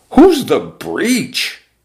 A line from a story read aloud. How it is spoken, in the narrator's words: the exponentially multiplying boys cried out